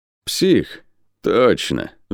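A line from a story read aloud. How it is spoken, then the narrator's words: Sigh. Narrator (Russian): вздохнул воин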